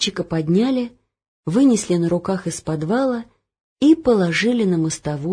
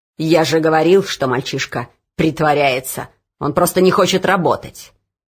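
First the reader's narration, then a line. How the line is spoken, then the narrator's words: Overseer's growl. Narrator (Russian): прорычал надсмотрщик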